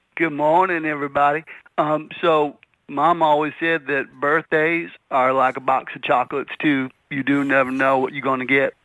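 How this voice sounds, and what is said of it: Forrest Gump impression. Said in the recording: “This is the world's premier Forrest Gump impersonator.”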